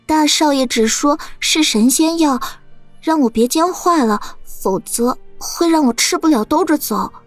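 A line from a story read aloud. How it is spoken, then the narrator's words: Dejected mumbling. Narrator (Chinese): 喜鹊垂着头，喃喃道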